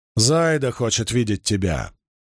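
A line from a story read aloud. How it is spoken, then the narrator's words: Growled. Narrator (Russian): прорычала Бергитте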